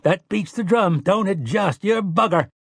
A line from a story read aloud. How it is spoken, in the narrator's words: Tian laughed and cried